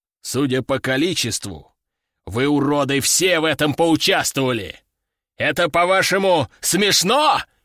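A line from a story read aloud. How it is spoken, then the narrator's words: General's growl. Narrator (Russian): прорычал генерал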